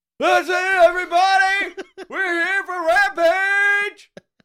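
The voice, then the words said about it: Yelling imitation of another person's voice. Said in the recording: “Tony Khan did his yell ... I love the way this guy yells ... Can you do the yell? ... You do a fantastic Tony Khan impression.”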